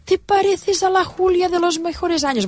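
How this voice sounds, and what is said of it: Imitating an older lady's voice. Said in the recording (Catalan): “la imitació de la senyora”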